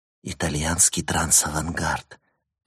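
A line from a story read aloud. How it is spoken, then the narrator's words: Whisper in the ear. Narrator (Russian): прошептала София ему на ухо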